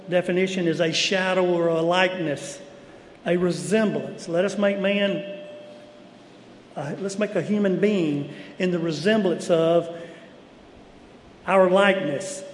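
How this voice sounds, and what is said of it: Southern American accent. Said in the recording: “I was Southern born and bred. I carry a Southern accent”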